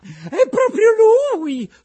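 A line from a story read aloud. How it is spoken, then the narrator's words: Woman shrieking. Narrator (Italian): strilla la signora Rosaura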